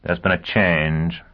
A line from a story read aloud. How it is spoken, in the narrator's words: Dagenham said dryly